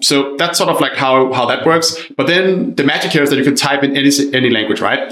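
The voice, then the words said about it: Danish accent in English. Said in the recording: “I'm Danish originally, for anyone wondering where my accent is from”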